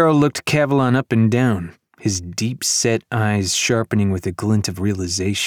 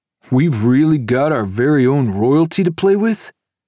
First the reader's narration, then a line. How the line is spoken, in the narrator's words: His friends laughed